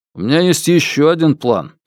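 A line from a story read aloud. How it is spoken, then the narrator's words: Plain. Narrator (Russian): сказал Фил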